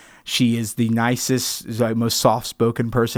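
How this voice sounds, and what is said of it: Usual voice. Nothing is said of it.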